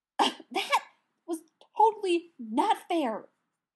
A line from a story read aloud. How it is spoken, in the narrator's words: Pete spluttered